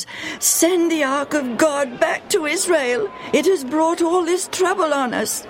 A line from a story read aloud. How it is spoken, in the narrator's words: The people of Ashdod had cried out to their leaders